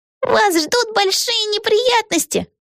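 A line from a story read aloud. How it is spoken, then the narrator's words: Squeak. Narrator (Russian): пискнула Пегги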